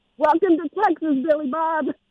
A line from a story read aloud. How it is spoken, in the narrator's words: blurted out